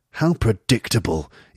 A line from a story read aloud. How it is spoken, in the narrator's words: say coldly